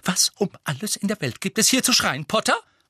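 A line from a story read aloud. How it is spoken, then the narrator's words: Angry hiss. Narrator (German): fauchte sie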